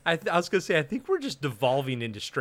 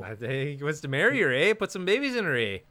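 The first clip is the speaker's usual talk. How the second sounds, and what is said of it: Exaggerated Canadian hoser accent. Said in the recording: “strange brew accent”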